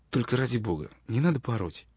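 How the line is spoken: Quiet soft voice. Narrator (Russian): тихо промолвила Джан

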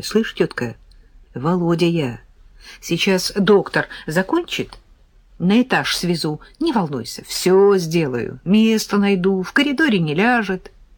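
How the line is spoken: Whisper. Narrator (Russian): шепнул мне

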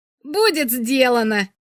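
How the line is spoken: Exclaiming. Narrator (Russian): воскликнул Воль

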